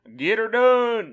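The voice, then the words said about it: Imitates a country bumpkin voice. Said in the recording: “country bumpkin ... he don't talk like this”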